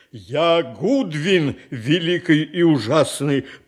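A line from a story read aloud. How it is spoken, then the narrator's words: Beast's roar from corner. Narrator (Russian): проревел зверь голосом, выходившим не из пасти чудовища, а из дальнего угла комнаты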